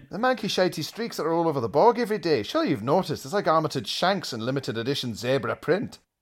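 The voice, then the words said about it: Put-on Scottish accent. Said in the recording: “apologies for the accent, Scottish listeners, but it's written in a kind of Irvine Welsh vernacular here. So if I don't do the accent”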